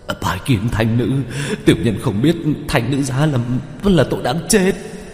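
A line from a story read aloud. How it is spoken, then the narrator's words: Trembling voice. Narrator (Vietnamese): phi cương giọng run rẩy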